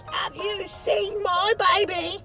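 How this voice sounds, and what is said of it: Quiet grumbling raspy voice. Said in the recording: “She asked in a quiet, grumbling, raspy voice,”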